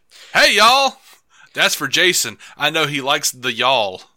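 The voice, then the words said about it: Put-on Southern accent. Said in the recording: “I'm going to evoke more of a Southern accent here.”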